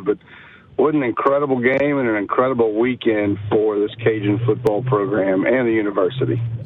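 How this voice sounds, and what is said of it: Strained, recovering hoarse voice. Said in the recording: “My voice is slowly coming back from, letting it be heard Saturday”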